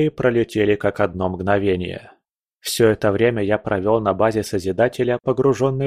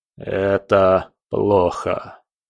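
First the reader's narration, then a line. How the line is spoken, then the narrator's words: Gloomy. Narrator (Russian): мрачно сказал Потемкин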